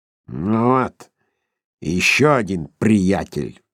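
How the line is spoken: Grumbling. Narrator (Russian): проворчал подслушавший их Скрудж

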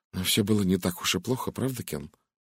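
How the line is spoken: Quiet. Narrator (Russian): негромко произнесла она

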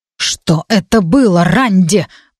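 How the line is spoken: Growled. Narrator (Russian): прорычал он

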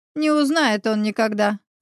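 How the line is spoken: Sinister laughing. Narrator (Russian): зловеще засмеявшись, выдала Елена

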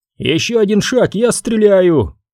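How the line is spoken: Shout. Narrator (Russian): крикнул Кейл

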